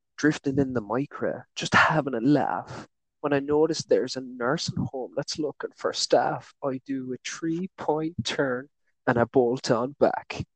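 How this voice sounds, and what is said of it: Put-on Irish accent, sung lyrics. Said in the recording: “Irish guy in front of a crowd ... I should do the accent. It gives it more of a feel to it.”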